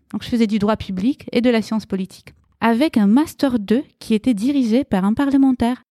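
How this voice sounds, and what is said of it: Light Romanian accent in French. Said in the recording (French): “Tu as un très joli petit accent. ... Puisque je suis roumaine.”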